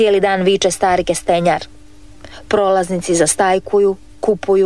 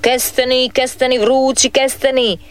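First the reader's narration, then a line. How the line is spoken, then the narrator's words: Vendor calling out. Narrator (Croatian): viče kestenjar do kasno uvečer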